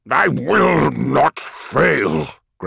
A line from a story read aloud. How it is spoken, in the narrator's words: growled Horus, baring bloody teeth